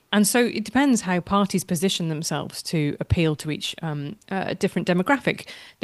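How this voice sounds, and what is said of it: British English accent. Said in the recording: “as you can hear from my accent, I'm British.”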